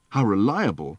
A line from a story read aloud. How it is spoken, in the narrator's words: said Arthur